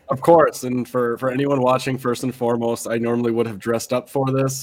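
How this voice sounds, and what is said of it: Voice roughened by the flu. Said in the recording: “we just came down with the flu ... I apologize for my voice”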